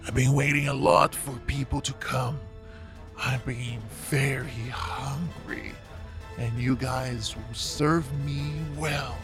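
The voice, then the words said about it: Weird creature character voice. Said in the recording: “weird voice”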